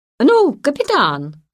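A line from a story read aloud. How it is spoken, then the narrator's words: Shout, trying to sound meek. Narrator (Russian): крикнул Карл, стараясь казаться как можно более кротким, чтобы сгладить свое недавнее поведение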